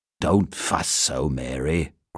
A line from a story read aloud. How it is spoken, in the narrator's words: grumbled Mr